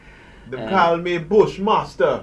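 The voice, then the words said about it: Bad put-on Jamaican accent. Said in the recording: “The worst Jamaican accent ever.”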